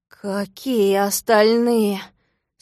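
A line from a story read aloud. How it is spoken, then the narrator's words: Nervous stuttering question. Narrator (Russian): спросил, заикаясь от волнения, пончик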